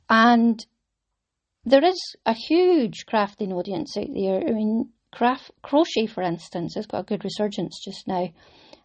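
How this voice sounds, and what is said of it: Caithness Scottish accent. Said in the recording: “a Caithness accent”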